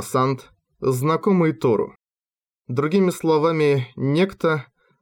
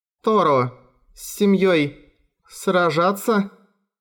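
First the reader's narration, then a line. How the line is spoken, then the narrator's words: Uncertain question. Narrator (Russian): Неуверенно спросила Чайка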